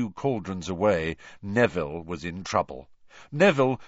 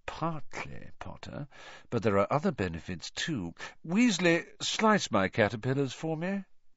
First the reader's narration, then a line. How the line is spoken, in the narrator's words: said Malfoy, lowering his voice to a whisper